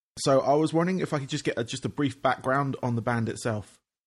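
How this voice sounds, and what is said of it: English accent. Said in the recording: “obviously you hear from my accent, I am English, from England”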